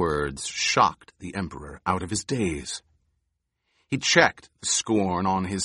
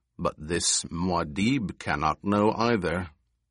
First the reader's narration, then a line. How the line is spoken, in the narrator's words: the taller companion added in a cold voice